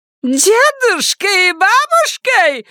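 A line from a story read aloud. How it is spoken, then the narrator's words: Squeal. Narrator (Russian): взвизгнула она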